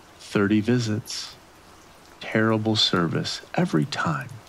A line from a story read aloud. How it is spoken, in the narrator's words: in a pathetic tone